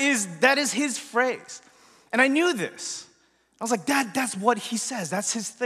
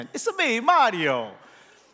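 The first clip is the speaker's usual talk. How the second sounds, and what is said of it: Exaggerated Italian accent. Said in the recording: “in that, you know, wonderful Italian accent ... in this Italian accent”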